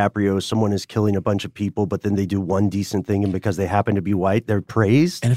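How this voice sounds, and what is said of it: Usual voice. Nothing is said of it.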